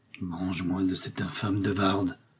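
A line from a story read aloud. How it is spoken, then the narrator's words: Muttered through teeth. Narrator (French): murmura Milady entre ses dents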